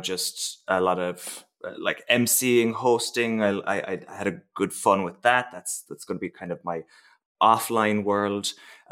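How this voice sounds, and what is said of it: Irish accent. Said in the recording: “my background being irish um, I can't really hide the accent”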